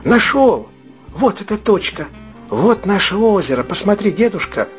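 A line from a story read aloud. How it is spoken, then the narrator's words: Excited exclamation. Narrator (Russian): воскликнул Дэнни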